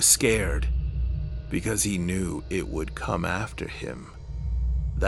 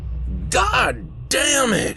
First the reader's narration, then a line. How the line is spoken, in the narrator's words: yelled